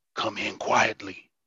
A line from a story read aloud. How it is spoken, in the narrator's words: he whispered